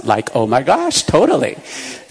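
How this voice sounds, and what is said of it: Valley Girl accent. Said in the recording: “I more often than not speak with a Valley Girl accent”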